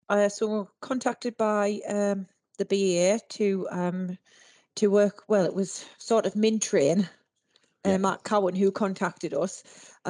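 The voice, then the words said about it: Northern English Durham accent. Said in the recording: “if you can't tell by ... accent, what part of the world are you from? ... Durham.”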